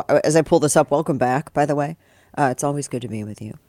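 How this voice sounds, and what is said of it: Rough, congested voice. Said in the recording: “my voice sounds tougher. I'm not sick. It's allergies.”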